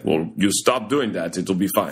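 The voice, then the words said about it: Put-on Russian accent. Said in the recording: “Good impression. Good Russian impression.”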